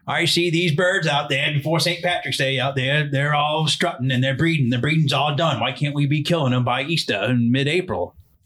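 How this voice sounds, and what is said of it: Put-on Maine accent. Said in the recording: “I'm going to do my best Maine impression”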